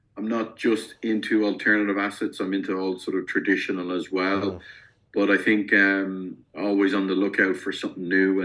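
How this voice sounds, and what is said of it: Irish accent. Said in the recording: “I'm in Europe. I mean, you can probably tell from the accent. I'm coming to you from I'm in Ireland”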